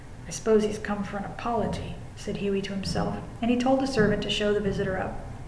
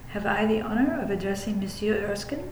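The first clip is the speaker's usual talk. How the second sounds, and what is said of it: Slight French accent. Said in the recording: “said in a slight French accent”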